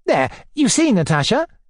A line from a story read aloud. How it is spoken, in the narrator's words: cried